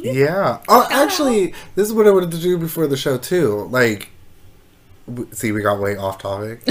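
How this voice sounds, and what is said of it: Congested, stuffy-nosed voice. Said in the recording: “My nose is super stuffed. So I'm sorry if, like, you keep hearing me, like, sniffle.”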